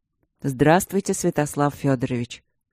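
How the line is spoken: Calm reply. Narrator (Russian): спокойно ответил Игорь

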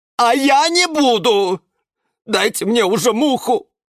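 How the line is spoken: Shouting. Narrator (Russian): заорал Жорж

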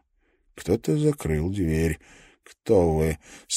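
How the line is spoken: Flat expressionless male voice. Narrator (Russian): спросил мужчина ровным, невыразительным голосом

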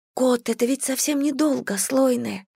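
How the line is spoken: Whisper. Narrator (Russian): прошептала Бэйвин

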